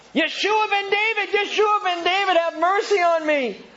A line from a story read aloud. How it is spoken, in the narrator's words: this little blind man is just shouting out